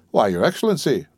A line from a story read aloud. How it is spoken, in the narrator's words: returned the landlord, chuckling and rubbing his hands with infinite complacency